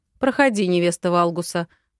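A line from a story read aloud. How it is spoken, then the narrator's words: Deep bass voice. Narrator (Russian): пробасил он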